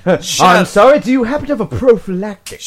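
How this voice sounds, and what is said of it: Put-on posh English accent. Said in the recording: “What's with the English accent?”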